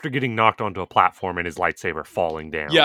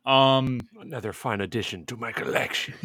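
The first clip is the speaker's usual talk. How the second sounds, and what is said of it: General Grievous impression, raspy coughing voice. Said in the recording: “Spot on Grievous impersonation. Just cough maniacally into a microphone.”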